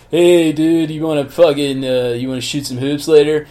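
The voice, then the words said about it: Laid-back surfer dude accent. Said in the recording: “this guy from the fucking, from Venice Beach... totally fine with that accent”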